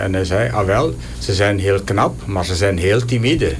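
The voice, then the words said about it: Imitated Belgian Dutch accent. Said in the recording (Dutch): “je dat accent ook mee pakt ... Belgisch accent.”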